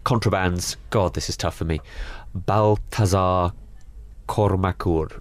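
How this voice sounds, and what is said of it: Put-on accent with rolled R's. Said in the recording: “I've just stuck in some rolled R's in there ... I don't know what that accent was”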